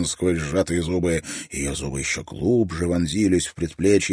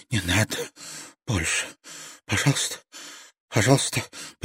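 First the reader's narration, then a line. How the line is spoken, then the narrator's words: Broken mumble, then crying. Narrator (Russian): прерывистым голосом пробормотала она и беззащитно заплакала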